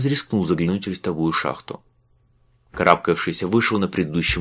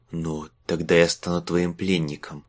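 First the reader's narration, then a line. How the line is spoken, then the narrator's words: Slurred fearful angry whisper. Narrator (Russian): прошептал Марк, невнятным от страха и злости голосом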